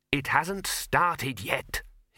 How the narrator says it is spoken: hissed the dean

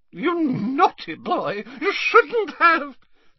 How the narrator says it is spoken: squealed old

